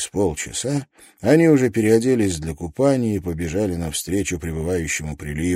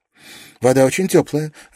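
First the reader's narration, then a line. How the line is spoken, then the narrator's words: Laughing. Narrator (Russian): рассмеялась Джули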